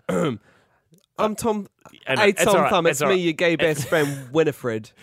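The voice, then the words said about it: Performs a cartoon character voice. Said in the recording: “you can do the voice ... Are you good at voice acting?”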